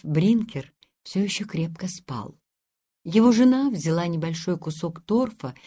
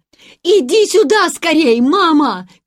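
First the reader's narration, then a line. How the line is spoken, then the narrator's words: Excited shouting. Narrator (Russian): кричал Ханс в сильнейшем возбуждении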